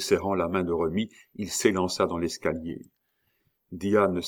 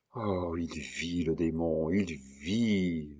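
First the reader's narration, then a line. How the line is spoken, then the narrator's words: Terrible murmur in ear. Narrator (French): murmura Diane à l'oreille de Remy avec un accent tellement terrible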